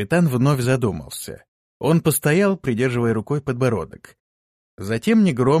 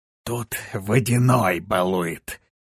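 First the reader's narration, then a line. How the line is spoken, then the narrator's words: Even quieter whisper. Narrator (Russian): еще тише прошептал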